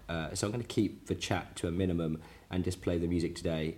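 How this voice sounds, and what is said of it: Croaky, rough voice. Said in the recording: “your particularly croaky host for today's show... my voice isn't all that good”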